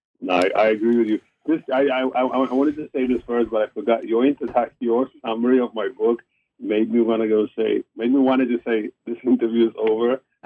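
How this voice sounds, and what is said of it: South African accent. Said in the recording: “I can hear your South African accent.”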